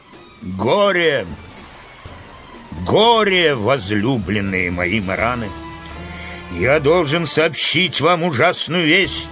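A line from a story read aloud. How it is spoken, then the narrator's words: Booming voice. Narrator (Russian): Урфин начал зычным голосом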